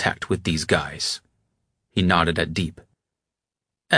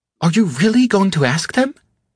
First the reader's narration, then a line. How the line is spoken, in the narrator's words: Sonar exclaimed